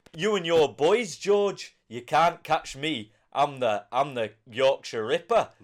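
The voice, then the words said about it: Put-on Geordie accent. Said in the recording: “Do a Geordie accent. ... Nice. Good so accent. There you go. I thought it was a solid”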